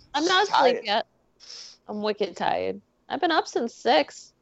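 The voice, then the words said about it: Slight Boston accent. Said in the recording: “she just inputted that Boston accent a little bit”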